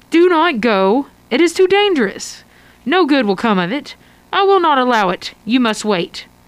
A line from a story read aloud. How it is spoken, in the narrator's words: One of them says firmly